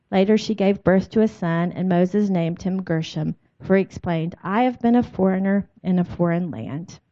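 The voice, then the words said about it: Speaks with a slight accent. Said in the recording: “a little bit of an accent”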